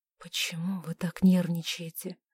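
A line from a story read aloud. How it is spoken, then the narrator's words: Whispered. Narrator (Russian): прошептал он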